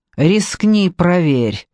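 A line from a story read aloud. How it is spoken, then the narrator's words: Through gritted teeth. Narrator (Russian): процедил Джекоби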